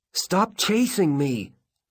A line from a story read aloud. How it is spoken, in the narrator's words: shout